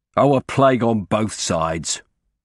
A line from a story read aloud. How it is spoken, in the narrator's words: he added irritably